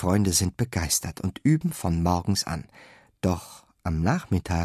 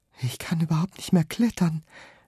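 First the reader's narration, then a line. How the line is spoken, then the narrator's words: Sighing. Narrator (German): seufzt Pepe Kletterfloh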